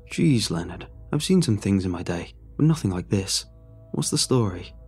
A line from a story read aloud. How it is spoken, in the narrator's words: Calmly, he looked at the man and said